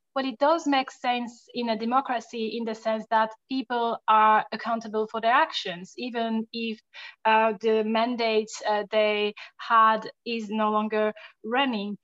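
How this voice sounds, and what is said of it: French accent. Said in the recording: “I'm French, as you might be able to hear from my accent”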